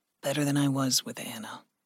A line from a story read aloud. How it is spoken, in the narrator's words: Gregory said softly